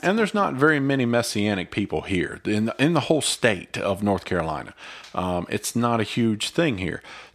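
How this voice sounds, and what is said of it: Mild Southern US accent. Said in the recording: “you can tell by our accents, this is kind of a Southern state ... not deep Southern. No, not deep Southern, but enough.”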